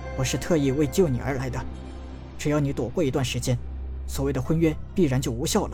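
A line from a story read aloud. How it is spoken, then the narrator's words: Low voice. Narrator (Chinese): 陈南低声道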